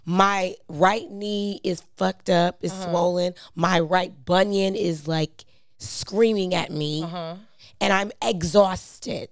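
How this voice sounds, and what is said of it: Hoarse, raspy tired voice. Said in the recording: “You're giving really hoarse and raspy. ... You can hear it in my voice.”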